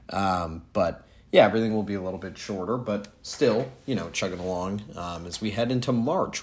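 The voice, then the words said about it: Sick, under-the-weather voice. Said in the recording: “I'm a little bit under the weather right now, so you could probably hear that in my voice”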